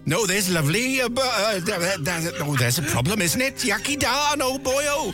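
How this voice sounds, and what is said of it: Deliberately bad Welsh accent. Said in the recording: “in my best Welsh accent ... it's supposed to be bad Welsh”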